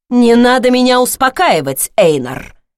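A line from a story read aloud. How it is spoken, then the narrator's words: Woman growling. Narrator (Russian): рыкнула она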